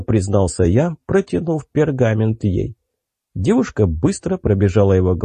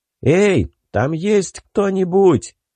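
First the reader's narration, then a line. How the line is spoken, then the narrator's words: Shouted into the forest. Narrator (Russian): крикнул я куда-то в лесную чащобу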